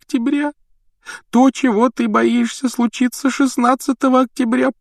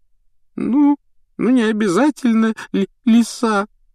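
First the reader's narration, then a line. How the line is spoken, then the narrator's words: Answered through tears. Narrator (Russian): ответила Лаванда, сквозь слезы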